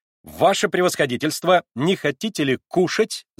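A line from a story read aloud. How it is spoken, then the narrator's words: Lively shout. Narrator (Russian): закричала резвая Наташа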